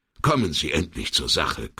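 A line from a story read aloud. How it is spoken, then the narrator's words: Irritated growl. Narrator (German): knurrte Sandrini gereizt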